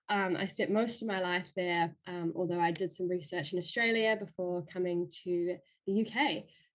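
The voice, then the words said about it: New Zealand accent. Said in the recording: “I'm originally from New Zealand, as you might be able to tell from my accent.”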